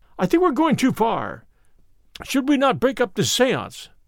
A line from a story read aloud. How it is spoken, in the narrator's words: I cried